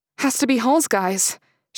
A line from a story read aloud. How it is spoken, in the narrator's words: she said, her voice trembling